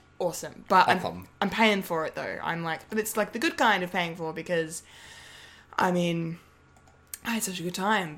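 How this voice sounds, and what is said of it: Slightly croaky voice. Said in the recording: “It's a little bit croaky.”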